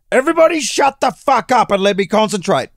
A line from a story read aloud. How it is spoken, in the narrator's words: Provenz screamed